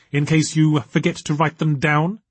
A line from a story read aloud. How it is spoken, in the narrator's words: said Nita sharply